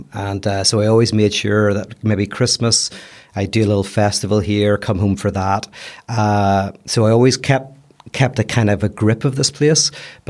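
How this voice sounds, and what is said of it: Belfast accent. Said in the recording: “you managed to keep your accent ... I still sound like I'm from Belfast”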